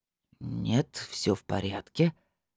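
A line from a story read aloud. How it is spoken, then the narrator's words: Thoughtful drawl. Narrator (Russian): задумчиво протянул опер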